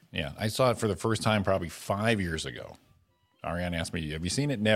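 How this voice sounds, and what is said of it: Usual voice. Nothing is said of it.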